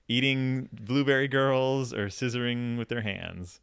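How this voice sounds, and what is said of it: Edward Scissorhands impression. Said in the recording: “my Scissorhands impression.”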